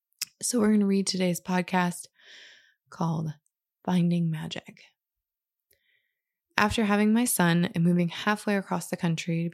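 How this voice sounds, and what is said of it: Scratchy, raspy voice. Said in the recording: “apologize for my voice today. It's a little scratchy. ... I'm having a little bit of a cold. ... a little raspier than normal.”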